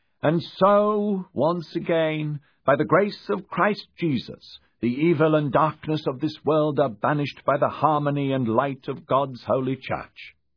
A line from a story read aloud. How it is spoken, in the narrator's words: he said loudly